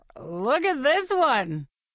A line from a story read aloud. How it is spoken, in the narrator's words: He hollers